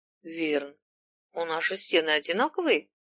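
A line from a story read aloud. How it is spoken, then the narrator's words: Uncertain question. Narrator (Russian): неуверенно спросил Зим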